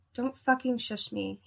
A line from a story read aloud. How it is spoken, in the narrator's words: whispered